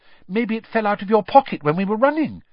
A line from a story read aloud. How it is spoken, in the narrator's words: Hermione suggested anxiously